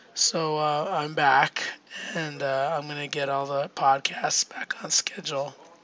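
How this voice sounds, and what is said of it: Sick, rough-sounding voice. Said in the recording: “As you can probably hear, my voice is really bad. I'm pretty sick.”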